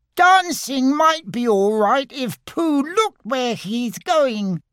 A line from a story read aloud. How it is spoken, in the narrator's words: squeaked Roo